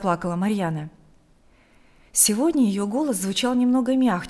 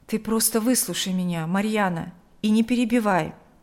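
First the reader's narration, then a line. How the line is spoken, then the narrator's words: Forced calm. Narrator (Russian): Игорь старался говорить спокойно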